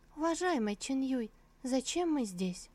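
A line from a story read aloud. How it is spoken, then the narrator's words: Joyful voice. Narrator (Russian): арфа сообщила радостным голосом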